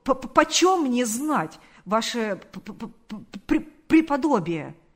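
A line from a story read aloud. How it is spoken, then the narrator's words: Stammering. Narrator (Russian): сказал он, запинаясь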